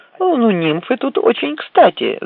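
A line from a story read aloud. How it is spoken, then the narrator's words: Laughing. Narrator (Russian): засмеялась Барбара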